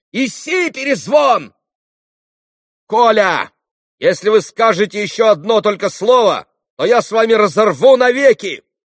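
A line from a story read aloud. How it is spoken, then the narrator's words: Commanding shout. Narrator (Russian): властно крикнул Алеша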